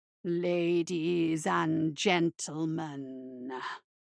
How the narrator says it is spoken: rumbled a deep voice from somewhere behind the curtain

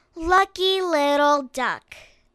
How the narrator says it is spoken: sighed Bunny and Squirrel

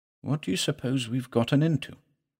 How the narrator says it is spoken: murmured Chandler

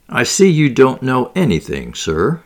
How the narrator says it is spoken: he said

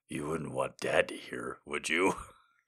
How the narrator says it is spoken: He asked, his voice low

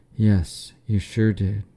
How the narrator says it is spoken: Gwen sighed with relief

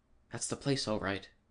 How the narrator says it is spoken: he whispered

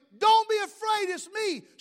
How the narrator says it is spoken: yells

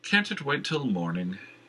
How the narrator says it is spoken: Jenner asked

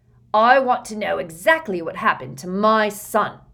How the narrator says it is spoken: roared Uncle Vernon

